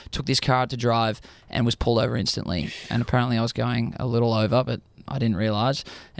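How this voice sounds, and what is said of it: Australian accent. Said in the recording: “I'm from Australia... it's a good thing to have an accent.”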